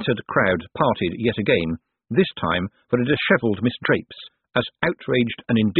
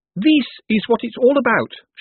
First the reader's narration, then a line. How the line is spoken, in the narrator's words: announced triumphantly